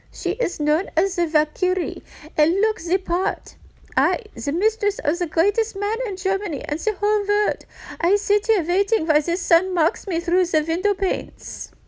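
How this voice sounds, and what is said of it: Put-on German accent. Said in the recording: “I'm going to attempt a German accent just to even the score.”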